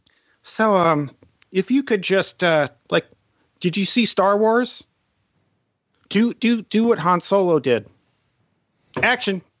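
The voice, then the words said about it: Higher-pitched imitation of another person's voice. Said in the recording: “Is that your Filoni impression? ... it was basically a George Lucas impression. ... just pitched a little higher ... It's like Kermit the Frog, like before he hit puberty.”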